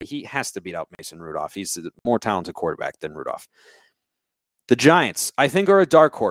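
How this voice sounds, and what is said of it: Usual voice. Nothing is said of it.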